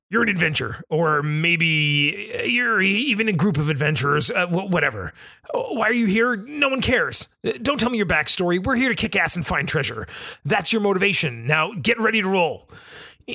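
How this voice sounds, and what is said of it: Bad Rick Sanchez impression. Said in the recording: “my bad impression of Rick Sanchez”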